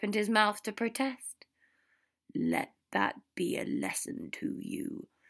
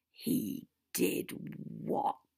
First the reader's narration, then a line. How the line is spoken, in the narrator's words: Severus breathed, looking as dumbfounded as any sane person should rightly be